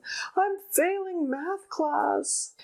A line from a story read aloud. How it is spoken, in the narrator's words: they wailed